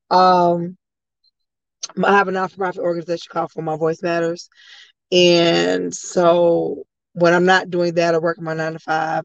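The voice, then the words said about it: Hoarse voice. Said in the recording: “I'm a little hoarse. I've been yelling all day.”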